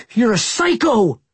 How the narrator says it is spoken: Austin shouted at Hatch

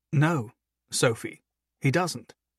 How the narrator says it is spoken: Humphrey explained calmly

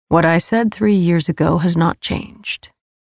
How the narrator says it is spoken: he replied flatly

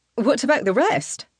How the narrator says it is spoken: another soldier asks

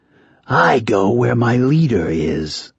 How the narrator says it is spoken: the eldest rasped

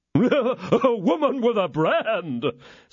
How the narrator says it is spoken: said Porthos with his hoarse laugh

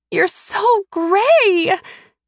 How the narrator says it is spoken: Beau whines

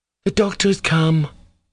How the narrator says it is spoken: cried Nina, who had been silent till then

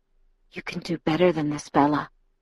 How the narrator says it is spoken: he whispered huskily

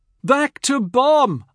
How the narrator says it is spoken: yelled happily

